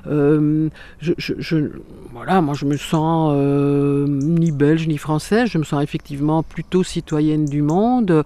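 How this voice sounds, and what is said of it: Belgian French accent. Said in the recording (French): “je suis belge, ça doit sentir à l'accent.”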